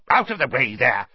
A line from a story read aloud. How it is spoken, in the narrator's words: he snarled at Ron